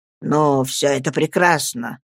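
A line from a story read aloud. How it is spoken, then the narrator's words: Muttered. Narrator (Russian): пробормотал он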